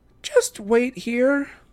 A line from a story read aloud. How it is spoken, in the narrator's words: she said miserably